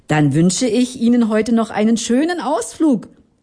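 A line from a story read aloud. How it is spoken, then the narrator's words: Calling out. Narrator (German): rief der Familienvater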